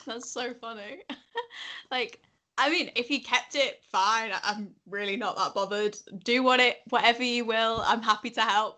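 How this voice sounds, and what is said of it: Yorkshire English accent. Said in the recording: “I like the Yorkshire accent.”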